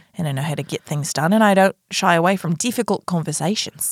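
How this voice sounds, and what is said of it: Australian accent. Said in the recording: “you lost your American accent ... to suddenly have an Australian accent is very hard to listen to”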